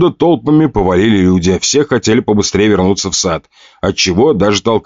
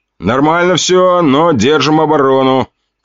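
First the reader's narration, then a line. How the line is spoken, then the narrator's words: Shouted. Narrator (Russian): крикнул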